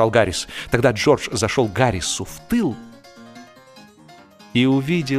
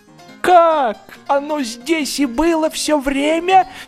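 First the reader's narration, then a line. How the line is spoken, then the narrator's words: Indignant exclamation. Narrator (Russian): с негодованием воскликнул он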